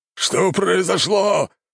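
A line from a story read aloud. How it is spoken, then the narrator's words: Growl. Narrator (Russian): зарычал лорд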